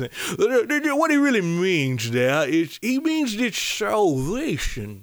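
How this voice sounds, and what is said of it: Weird preachy religious-people accent. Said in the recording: “the religious people, they have this weird accent ... They kind of sound like a mix between Bane and then”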